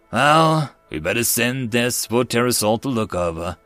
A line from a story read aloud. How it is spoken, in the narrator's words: Dream said sadly